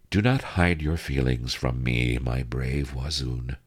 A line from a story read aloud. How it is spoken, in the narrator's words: she murmured